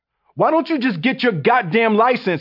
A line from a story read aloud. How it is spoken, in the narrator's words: I yelled